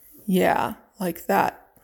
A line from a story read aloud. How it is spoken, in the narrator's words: told her on a growl